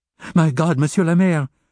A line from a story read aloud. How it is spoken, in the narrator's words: she cried at last